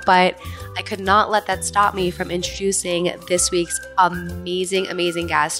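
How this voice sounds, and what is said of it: Nasal, congested voice. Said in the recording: “I'm having a bit of an allergy attack of sorts. I'm a little nasally. ... My voice is not myself”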